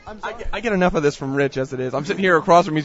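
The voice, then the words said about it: Messed-up, sick-sounding voice. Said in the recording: “I was sick from MobiCon... my voice is so messed up right now... it is so sexy”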